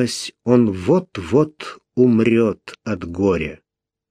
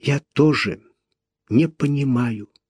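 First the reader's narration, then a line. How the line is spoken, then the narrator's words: Quiet. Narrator (Russian): тихо сказала она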